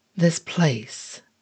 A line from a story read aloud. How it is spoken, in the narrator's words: the man continued, his tone almost kind